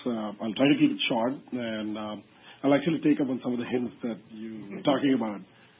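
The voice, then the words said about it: Slightly hoarse voice. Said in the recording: “apologies for my voice being a bit hoarse.”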